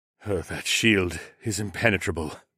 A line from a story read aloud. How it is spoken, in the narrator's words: Zoklan sighed